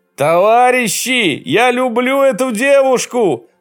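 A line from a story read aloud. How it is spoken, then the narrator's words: Shouting. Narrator (Russian): закричал Перетрусов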